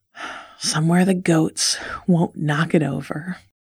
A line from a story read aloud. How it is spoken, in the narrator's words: he said with a sigh